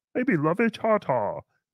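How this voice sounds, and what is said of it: Imitates another person's voice. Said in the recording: “my Ralph impression”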